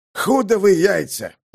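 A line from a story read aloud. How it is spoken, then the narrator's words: Growling roar. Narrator (Russian): зарычал ураган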